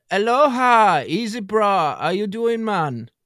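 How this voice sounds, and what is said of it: Put-on Hawaiian accent. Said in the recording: “What do Hawaiians speak like? Do you know Hawaiian accent?”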